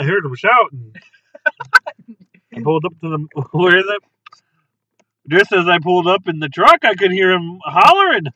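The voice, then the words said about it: Put-on Wisconsin accent. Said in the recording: “Probably like a Wisconsin accent ... That's much better.”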